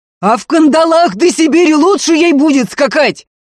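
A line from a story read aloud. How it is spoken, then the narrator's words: Losing-control yell. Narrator (Russian): заорал сорвавшись Ефим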